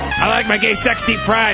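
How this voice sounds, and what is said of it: Imitates another person's voice. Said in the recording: “That's my Louis Anderson impression.”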